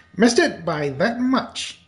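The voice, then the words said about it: Maxwell Smart impression. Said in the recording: “He's got two voices that he does. ... It's Maxwell Smart from Get Smart. ... Oh, that's pretty good.”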